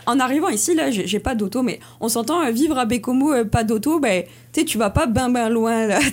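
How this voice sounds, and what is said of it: French accent from France. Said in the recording (French): “je viens de la France, là, ça s'entend aussi à mon accent.”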